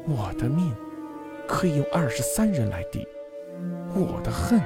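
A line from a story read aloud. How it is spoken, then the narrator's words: Eerily close, clear voice. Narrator (Chinese): 可是那声音却像贴着耳朵一样清晰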